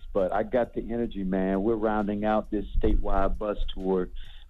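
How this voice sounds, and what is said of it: Hoarse, strained voice. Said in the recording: “I'm just losing my voice.”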